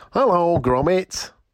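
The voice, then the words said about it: Wallace impression. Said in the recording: “people sometimes say I sound like Wallace, so here's my best impression ... Pretty good ... He does sound like Wallace”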